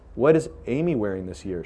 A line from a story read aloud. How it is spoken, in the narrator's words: she asked